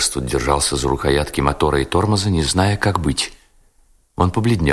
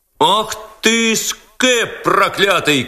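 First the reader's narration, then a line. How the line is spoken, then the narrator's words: Crowd shouting. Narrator (Russian): кричала толпа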